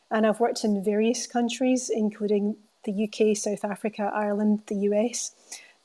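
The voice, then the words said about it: Scottish Glasgow accent. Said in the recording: “I started off in Glasgow, Scotland, if you're wondering about the accent.”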